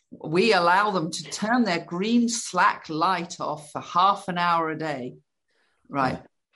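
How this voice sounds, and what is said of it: Put-on American accent. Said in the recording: “I've got to put on an American accent.”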